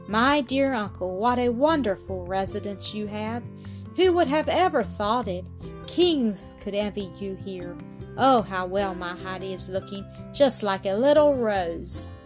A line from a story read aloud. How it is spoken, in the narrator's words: the grandmother exclaimed